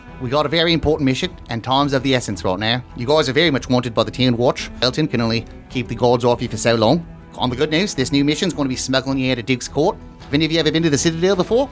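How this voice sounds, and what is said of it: Character voice with weird accent. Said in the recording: “Hard to understand you with that weird accent.”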